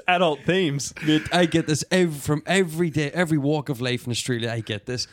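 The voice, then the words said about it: Noticeable foreign accent. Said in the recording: “what my accent's going to be ... exotic ... mystified by my accent ... it thick and thin”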